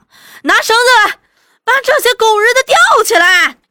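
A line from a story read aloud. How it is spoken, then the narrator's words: Crowd shouting together. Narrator (Chinese): 下下墓的人又齐声喧嚷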